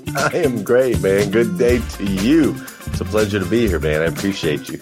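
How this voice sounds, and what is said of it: American accent. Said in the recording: “the accent betrays you there, so you're not from England”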